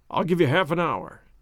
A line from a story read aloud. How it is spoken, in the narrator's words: said he